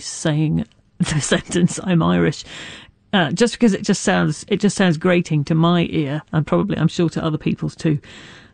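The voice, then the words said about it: British accent. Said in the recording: “my very British voice”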